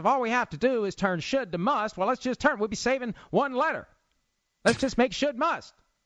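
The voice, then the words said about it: Mediocre Jerry Jones impression, Perot-like. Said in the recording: “That wasn't a very good Jerry Jones impression. ... Yeah, it wasn't terrible. ... Sounded more like Ross Perot. ... Dana Carvey doing Ross Perot.”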